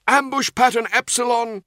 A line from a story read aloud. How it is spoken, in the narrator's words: he called out